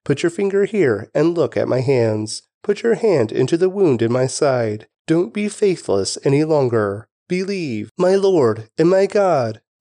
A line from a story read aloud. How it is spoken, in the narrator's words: Thomas exclaimed